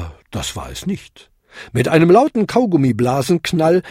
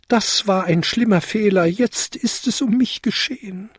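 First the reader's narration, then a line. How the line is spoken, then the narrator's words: Wailing, lamenting. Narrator (German): jammerte er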